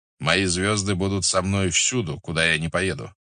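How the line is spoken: Plain. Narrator (Russian): сказал Батухан

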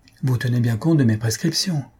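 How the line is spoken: Plain. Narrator (French): dit-il au domestique

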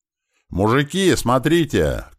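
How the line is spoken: Shouted. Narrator (Russian): крикнул Клёпа

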